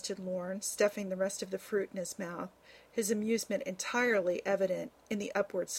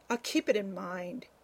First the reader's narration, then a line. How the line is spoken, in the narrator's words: he said, chuckling